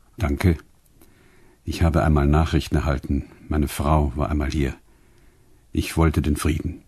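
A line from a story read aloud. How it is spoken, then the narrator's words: Very quiet. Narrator (German): ganz leise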